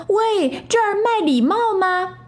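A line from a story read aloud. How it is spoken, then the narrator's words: Loud shout. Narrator (Chinese): 小猴大叫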